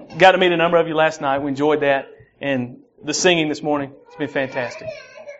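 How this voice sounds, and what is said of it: Southern American accent. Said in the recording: “my southern accent ... when I get wired up, it gets worse”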